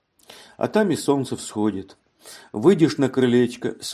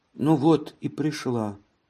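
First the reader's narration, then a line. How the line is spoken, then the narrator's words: Plain. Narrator (Russian): сказала Елена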